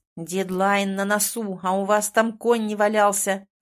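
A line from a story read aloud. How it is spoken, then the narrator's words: Growling at subordinates. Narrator (Russian): рычал на своих подчиненных Александр Сергеевич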